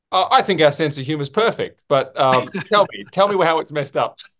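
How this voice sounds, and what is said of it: Australian accent. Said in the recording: “read it with Australian accent”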